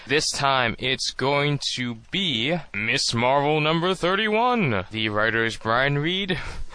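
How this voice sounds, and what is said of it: Movie-phone announcer style voice. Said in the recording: “doing the movie phone voice”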